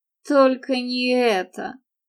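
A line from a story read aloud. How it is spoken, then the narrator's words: Startled exclamation. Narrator (Russian): вздрогнул Джонатан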